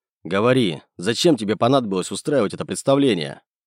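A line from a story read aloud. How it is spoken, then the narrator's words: Curator snorting. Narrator (Russian): Куратор хмыкнул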